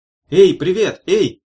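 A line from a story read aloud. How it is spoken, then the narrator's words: Shout. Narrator (Russian): крикнула Варвара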